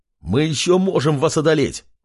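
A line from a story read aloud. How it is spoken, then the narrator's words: Fighter's shout. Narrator (Russian): выкрикнул один из бойцов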